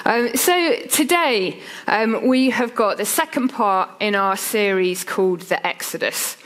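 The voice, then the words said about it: Low, slightly unwell-sounding voice. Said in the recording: “I've woken up with the start of a cold this morning ... if my voice gets even lower than it usually is, forgive me.”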